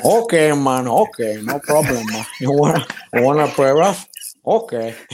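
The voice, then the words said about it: Tony Montana impression from Scarface. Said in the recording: “you can actually do a fantastic Tony Montana ... Scarface is here, man.”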